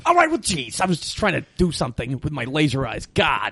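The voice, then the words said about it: Imitates another person's voice. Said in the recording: “doing a Condon impression”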